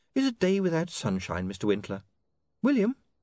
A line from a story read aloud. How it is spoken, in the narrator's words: said Saccharissa sweetly